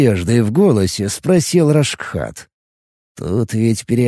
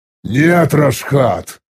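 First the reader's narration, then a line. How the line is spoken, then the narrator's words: Irritated. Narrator (Russian): раздраженно произнес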